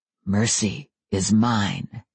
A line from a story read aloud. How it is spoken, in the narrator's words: Adam said softly from somewhere just behind me